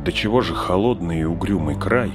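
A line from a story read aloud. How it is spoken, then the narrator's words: Chilled muttering. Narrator (Russian): зябко поежившись, пробормотал Фродо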